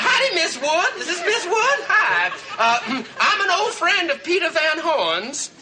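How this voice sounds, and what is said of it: Disguised voice with put-on accent. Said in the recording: “How should I disguise my voice? ... Make an accent”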